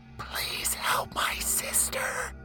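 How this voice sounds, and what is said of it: Soft frightened whispering female voice. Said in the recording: “A whispering female begged from the depths of a sorrowful soul.”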